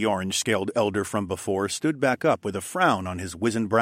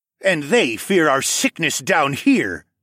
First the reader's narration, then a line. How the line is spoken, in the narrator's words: Sarek scoffed